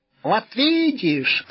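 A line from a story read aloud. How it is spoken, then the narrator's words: Joyful squeal, cat. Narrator (Russian): радостно взвизгнул кот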